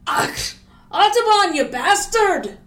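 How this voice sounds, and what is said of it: Angry put-on Scottish accent. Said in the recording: “an angry Scotsman who stood up and said ... I'm slipping into, I should not do accents, I can do accents great”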